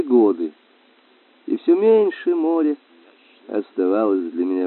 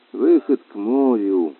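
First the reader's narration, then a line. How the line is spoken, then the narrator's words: Muttering to self. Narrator (Russian): бормотал я про себя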